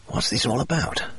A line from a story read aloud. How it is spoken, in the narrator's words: I whispered